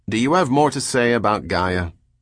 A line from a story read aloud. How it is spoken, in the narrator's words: with no ready answer, said irritably